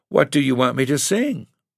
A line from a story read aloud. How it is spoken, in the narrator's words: Alma asked in a trembling voice